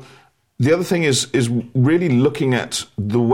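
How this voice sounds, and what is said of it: Usual voice. Nothing is said of it.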